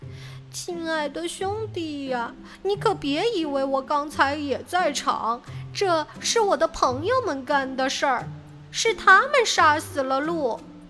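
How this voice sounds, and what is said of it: Pitiful, pleading voice. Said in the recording (Chinese): “狐狸用可怜巴巴的声音说道”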